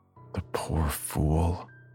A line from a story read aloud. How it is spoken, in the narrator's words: will shake his head and mutter